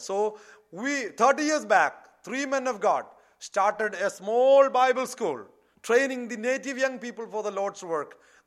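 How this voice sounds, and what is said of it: South Indian accent. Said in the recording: “if they hear my language, my accent, suddenly they would say, this fellow is come from South.”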